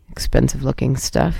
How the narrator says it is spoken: muttered to himself

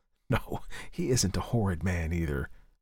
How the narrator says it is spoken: whispered her brother, laughing

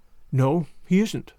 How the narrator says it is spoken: said Marilla, in a troubled tone

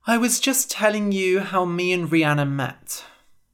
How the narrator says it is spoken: sighed

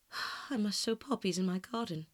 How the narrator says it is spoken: sighed Dorian

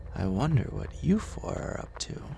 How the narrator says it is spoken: muttered

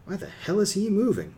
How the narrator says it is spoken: Linda breathed

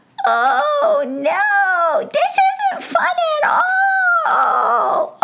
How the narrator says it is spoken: all the pixies squealed

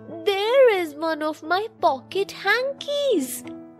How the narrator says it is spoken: cried Leela

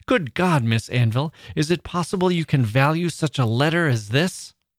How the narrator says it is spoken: in a passionate manner, exclaimed

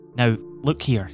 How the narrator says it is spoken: he said

